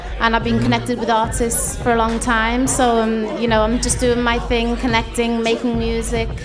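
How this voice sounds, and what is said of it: Strong Liverpool accent. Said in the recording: “you got the perfect Liverpool accent.”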